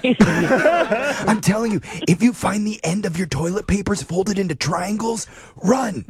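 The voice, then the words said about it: Whispering. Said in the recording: “You can stop whispering now.”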